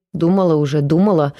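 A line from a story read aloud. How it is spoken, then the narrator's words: Old woman, irritated. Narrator (Russian): раздраженно сказала старуха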